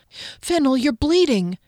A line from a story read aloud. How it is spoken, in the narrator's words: Kier spoke through gasps